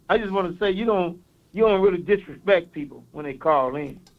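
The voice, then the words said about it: Thick Mississippi Southern accent. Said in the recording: “I got a little accent... down a little country... But not as thick as this uh, Mississippi accent I got”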